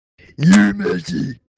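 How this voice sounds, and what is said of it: Imitates an anime character's shout. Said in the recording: “good Kuwabara impression ... That was pretty good, man.”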